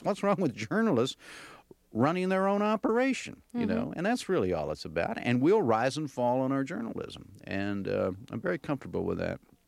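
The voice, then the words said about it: Southern American accent. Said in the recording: “I'm hearing more of a Southern accent from you than I think I hear on the program”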